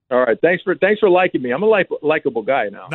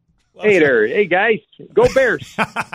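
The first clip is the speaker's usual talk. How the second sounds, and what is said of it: Put-on Chicago accent. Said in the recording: “especially when you do the Chicago accent.”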